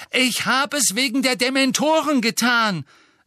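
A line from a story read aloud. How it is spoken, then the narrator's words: Loud, hurried. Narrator (German): sagte er laut, bevor ihm wieder jemand ins Wort fallen konnte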